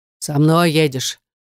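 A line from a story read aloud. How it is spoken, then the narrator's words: Deep-voiced flat statement. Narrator (Russian): басистым голосом ставит перед фактом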